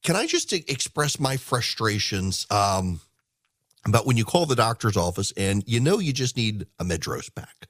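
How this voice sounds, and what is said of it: Congested voice from a cold. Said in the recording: “If you can't tell, and you probably can tell, I've got a bit of a cold, although I'm actually pretty much over it now.”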